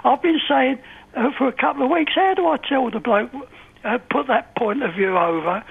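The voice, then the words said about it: Speaks with a distinctive regional accent. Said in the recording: “I love your accent. I really do.”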